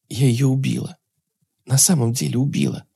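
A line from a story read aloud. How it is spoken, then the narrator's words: Whispered with strange certainty. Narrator (Russian): шептала Ирина с ей самой непонятной уверенностью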